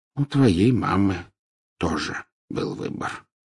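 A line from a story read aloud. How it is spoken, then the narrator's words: Soft. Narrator (Russian): мягко проговорил Дамблдор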